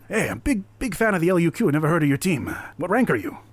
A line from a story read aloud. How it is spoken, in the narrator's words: they all eagerly be like